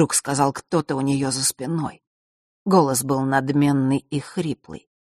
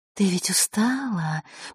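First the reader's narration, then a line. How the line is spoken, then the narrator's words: Whisper in ear. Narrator (Russian): прошептал ей в ухо другой голос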